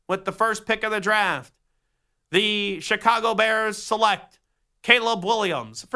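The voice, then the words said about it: NFL draft announcer voice. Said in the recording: “whenever you do the draft voice, I try to still sound like the old commissioner, Paul Tagliabue. I never try to sound like Roger Goodell.”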